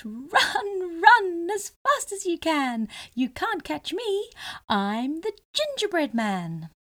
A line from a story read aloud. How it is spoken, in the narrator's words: he laughed and called out